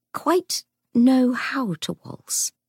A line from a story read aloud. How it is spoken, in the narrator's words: she faltered, having no idea what she was saying